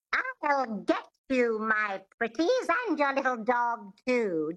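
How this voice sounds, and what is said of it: Twangy Wicked Witch of Oz voice. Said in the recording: “It has this twang, which is the epiglottis, which is just behind the vocal cords in the throat. And to get this sound, you do this. Think of the Wicked Witch from The Wizard of Oz.”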